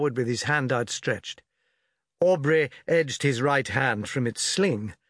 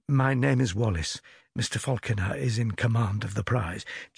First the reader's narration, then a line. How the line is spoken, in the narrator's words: he added in a low voice